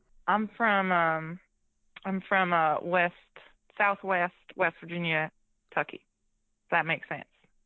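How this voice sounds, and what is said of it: Southern American drawl. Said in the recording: “I do like that southern drawl you've got going on.”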